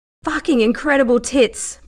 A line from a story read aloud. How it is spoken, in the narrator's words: Price panted, his breath labored now from the exertion